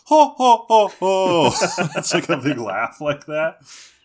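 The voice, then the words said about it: Exaggerated over-the-top rich-girl laugh. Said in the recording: “rich girl laugh, and it's so over the top and hilarious ... great impression”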